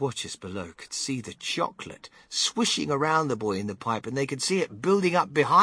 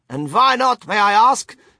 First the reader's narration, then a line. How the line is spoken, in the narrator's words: shouted Mrs